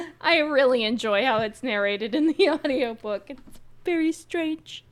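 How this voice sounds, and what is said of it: Usual voice. Nothing is said of it.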